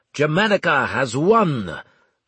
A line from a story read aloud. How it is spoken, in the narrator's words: Armel shouted